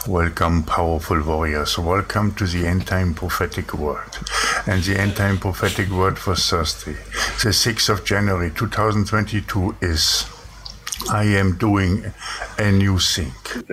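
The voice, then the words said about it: Thick German or Austrian accent. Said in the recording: “a thick German or Austrian accent”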